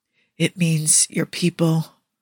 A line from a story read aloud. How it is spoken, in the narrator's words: Quinn whispers